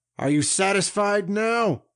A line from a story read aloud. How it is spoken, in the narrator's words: asked angrily